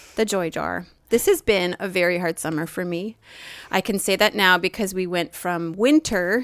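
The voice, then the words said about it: NPR radio announcer voice. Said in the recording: “your NPR voice ... my Tur- NPR turn voice”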